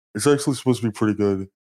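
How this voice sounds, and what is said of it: Impression of Zach Hadel. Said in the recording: “That's a pretty good impression of what's his name, Charlie. ... I've been working on the Zach Hadle impression for a long time.”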